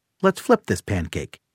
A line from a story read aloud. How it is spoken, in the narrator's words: she says cheerfully